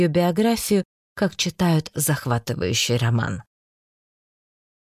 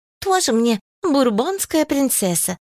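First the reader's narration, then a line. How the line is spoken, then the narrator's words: Exclaimed. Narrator (Russian): воскликнула Зоечка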